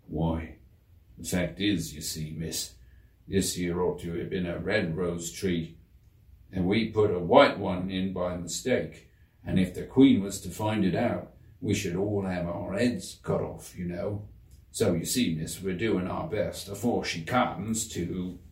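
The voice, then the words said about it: Low, quiet voice. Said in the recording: “in a low voice”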